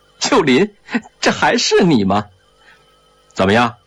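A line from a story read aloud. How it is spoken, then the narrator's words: Laughing. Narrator (Chinese): 他大笑着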